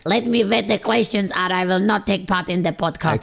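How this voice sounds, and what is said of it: Imitates another person's voice, witch-like. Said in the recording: “doing an impression of like Martin ... It's not how she speaks ... that impression that makes her sound like she lives in the woods on her own and she has like a stick and a knobbly nose”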